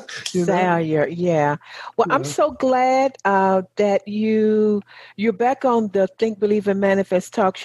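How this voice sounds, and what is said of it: Southern American accent. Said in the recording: “my Southern accent and dialect”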